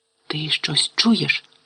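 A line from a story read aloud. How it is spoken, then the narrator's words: Whispered. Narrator (Ukrainian): прошепотів Рон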